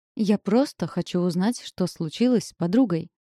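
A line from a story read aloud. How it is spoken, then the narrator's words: Exclaimed, voice involuntarily raised. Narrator (Russian): воскликнула Пипа, невольно повысив голос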